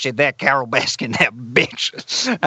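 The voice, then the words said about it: Imitates another person's strange voice. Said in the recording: “this character that I did an impression of, Joe Exotic, you know, because he's got this kind of great kind of strange voice”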